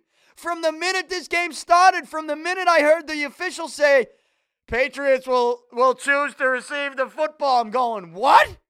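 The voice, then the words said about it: Hoarse, strained voice. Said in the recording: “losing my voice. I lost my voice yesterday yelling at the TV”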